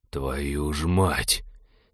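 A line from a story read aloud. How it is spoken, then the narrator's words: Breathed out, male. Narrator (Russian): Выдохнул он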